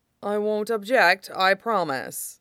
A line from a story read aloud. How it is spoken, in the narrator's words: he says dryly